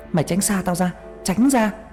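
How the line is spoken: Screaming. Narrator (Vietnamese): tôi hét lên

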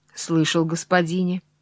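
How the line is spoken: Calm reply. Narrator (Russian): отвечал спокойно Иоанн Молодой

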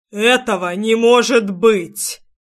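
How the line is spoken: Roaring dragon. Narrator (Russian): проревел рыжеволосый дракон

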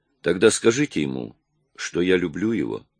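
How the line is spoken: Quiet. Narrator (Russian): тихо промолвила она

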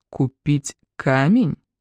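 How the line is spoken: Incredulous drawl. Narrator (Russian): недоверчиво протянул Сим

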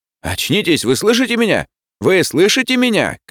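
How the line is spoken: Doctor shouting urgently. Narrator (Russian): кричал врач

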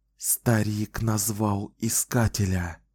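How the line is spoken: Whisper. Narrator (Russian): прошептал он

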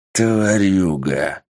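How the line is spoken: Werewolf growling. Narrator (Russian): прорычал оборотень третьего уровня

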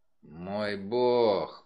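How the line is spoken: Moaning. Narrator (Russian): простонал Адриан Дарт

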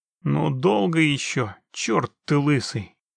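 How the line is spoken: Snorting hmph. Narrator (Russian): Геральт хмыкнул

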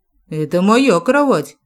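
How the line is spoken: Displeased grumble. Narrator (Russian): недовольно буркнул Элден

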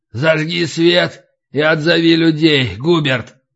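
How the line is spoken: Hoarse shout. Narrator (Russian): хрипло прокричал Егор

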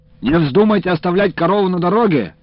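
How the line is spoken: Distant shout. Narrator (Russian): крикнул со двора уполномоченный

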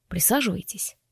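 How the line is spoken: Quiet command. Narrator (Russian): тихо велел

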